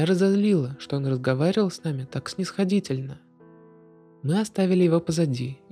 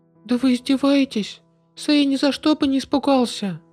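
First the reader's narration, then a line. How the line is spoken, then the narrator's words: Unrestrained shout. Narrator (Russian): Не сдерживаясь, я закричала на Фласику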